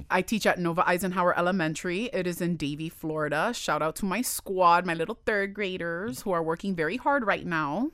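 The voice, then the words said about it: Miami accent. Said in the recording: “You're taking that Miami accent to Broward ... the accent is still there”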